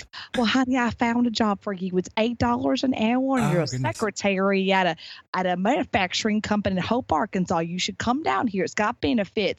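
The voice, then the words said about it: Southern US accent imitation. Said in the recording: “my mother's very Southern. She's a very Southern woman and from Arkansas, Hot Springs. So she's got this Southern accent”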